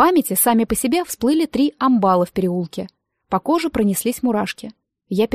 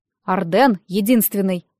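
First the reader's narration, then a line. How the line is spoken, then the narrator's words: Stern. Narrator (Russian): сказал он строго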